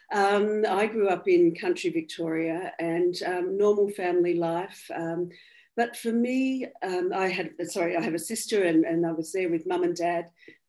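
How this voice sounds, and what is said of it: Australian accent. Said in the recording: “I'm Australian, obviously. That'll be pretty obvious by my accent.”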